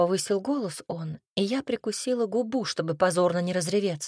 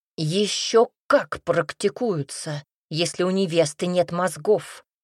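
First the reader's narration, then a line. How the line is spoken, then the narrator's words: Father barking. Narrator (Russian): рявкнул папенька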